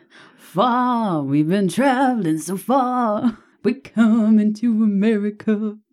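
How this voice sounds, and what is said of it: Imitates another person's singing voice. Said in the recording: “do my Neil Diamond impression”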